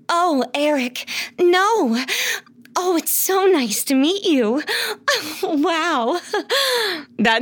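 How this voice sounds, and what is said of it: Disney princess voice. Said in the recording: “What does your Disney voice sound like? ... it says like Disney princesses.”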